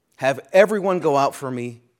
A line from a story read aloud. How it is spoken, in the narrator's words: Joseph could not control himself before all of those who stood by him, and he cried